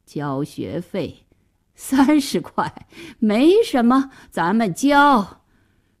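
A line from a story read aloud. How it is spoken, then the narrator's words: Wry, muttering to himself. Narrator (Chinese): 爸爸苦笑了好一会儿，自言自语地说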